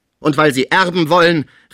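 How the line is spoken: Annoyed call. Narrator (German): rief Pons unwillig

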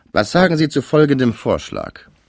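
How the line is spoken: Called into ear. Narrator (German): rief Pons in Wilhelms Ohr

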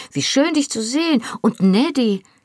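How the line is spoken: Delighted exclamation. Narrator (German): rief erfreut

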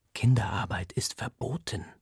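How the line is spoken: Whispered. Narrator (German): flüstert mir Paris zu

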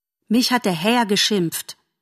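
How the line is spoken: Plain. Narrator (German): sagte Bambi

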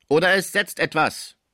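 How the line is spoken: Fearsome shout. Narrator (German): rief Topinard mit furchtgebietender Stimme

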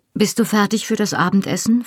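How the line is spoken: Plain. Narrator (German): fragte ich

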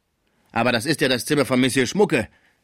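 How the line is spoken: Calling out. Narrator (German): rief die Sauvage

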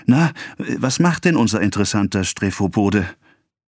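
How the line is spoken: Breathless excited question. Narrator (German): Atemlos, aufgeregt und mit rotem Gesichte … fragte

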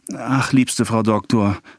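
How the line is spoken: Woman sighing between words. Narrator (German): fuhr die Frau fort indem sie zwischen jedes ihrer Worte einen Seufzer schob

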